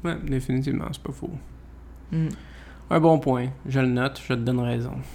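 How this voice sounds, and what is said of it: Exaggerated regional accent. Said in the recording (French): “Avez-vous entendu l'accent à ...? ... J'exagère”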